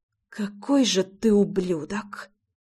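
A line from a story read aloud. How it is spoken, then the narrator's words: Whispering. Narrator (Russian): прошептала она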